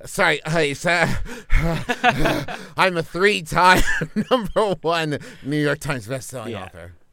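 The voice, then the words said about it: Breathless, panting delivery. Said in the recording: “just a little out of breath ... Really make it sound like you just finished jacking off.”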